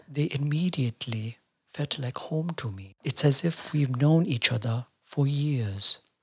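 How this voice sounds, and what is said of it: Eckhart Tolle impression. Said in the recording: “I'm going to do my Eckhart Tolle impression ... This is really good.”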